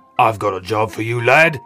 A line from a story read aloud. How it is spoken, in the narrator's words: boomed the big man